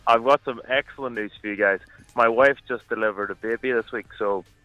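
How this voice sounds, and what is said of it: Irish accent. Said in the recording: “I can hear an Irish accent already... Irish accent”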